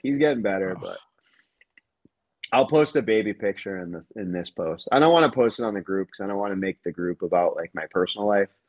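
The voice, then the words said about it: Hoarse, sick-sounding voice. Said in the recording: “As you could probably tell, my voice is off because I've been battling the flu ... my throat was completely swollen”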